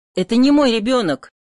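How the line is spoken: Desperate shout. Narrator (Russian): отчаянно крикнул он

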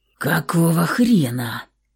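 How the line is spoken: Hoarse. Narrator (Russian): захрипел Максим

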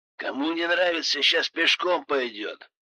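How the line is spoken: Grumbling. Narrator (Russian): проворчал и так не слишком любивший нас пилот

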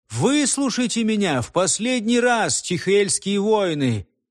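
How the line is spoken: Firm ringing voice. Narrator (Russian): сказал он твердым и звонким голосом

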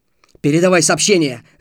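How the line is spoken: Barked. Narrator (Russian): рявкнул лейтенант

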